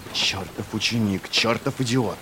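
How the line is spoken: Hissing. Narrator (Russian): прошипел

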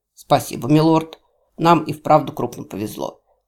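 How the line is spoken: Unflappable bodyguard's snort. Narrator (Russian): хмыкнул невозмутимый телохранитель

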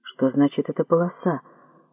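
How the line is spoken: Muttering. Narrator (Russian): пробормотал Масита

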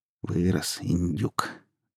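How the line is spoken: Quiet, chuckling. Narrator (Russian): тихонько говорила она, посмеиваясь

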